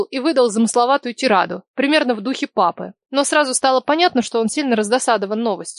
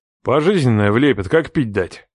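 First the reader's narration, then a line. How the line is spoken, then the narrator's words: Grumbled. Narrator (Russian): пробурчал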